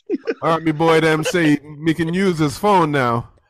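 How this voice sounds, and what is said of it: Poor put-on Jamaican accent. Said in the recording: “my Jamaican accent is not better than ... It ain't worse, but it ain't better... All of you Jamaican accents are the fuck terrible”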